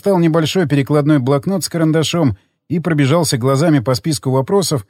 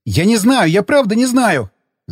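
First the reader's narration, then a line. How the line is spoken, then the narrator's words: Screaming. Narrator (Russian): Заорал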